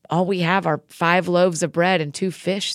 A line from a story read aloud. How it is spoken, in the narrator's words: they said